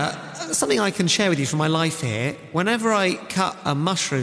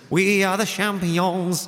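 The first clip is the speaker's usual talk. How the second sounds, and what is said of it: Singing in a French accent. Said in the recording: “I like to sing this song in a French accent.”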